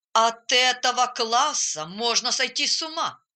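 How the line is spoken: Grumbling. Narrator (Russian): разворчался

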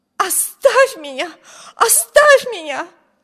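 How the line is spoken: Wild scream. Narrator (Russian): Дико закричала

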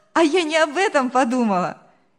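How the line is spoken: Cheerful laughing girl. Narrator (Russian): весело рассмеялась девушка

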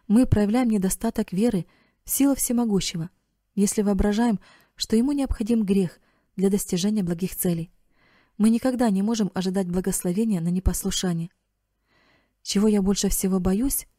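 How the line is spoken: Sobbing. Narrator (Russian): всхлипнул Эрик

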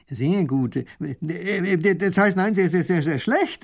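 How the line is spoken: Stutter. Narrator (German): stottert der Baron

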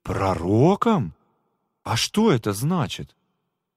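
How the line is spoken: Surprised exclamation. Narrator (Russian): Миша удивленно воскликнул

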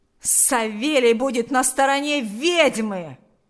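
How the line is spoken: Angry yell. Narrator (Russian): Злобно завопил Ахрим

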